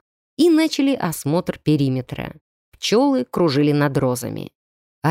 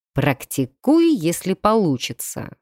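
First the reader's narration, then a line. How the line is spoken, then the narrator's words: Plain. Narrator (Russian): сказал мастер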